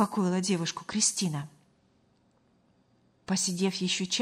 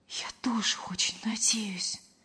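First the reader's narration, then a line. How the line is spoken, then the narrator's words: Whispered reply. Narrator (Russian): шепотом откликнулась Лена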